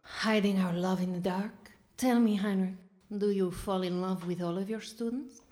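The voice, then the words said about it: Gangster moll character voice. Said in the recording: “Why does she talk like a gun mall?”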